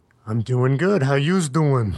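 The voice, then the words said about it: Put-on Brooklyn accent. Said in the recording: “Again with the Brooklyn accent ... You'll get it right someday.”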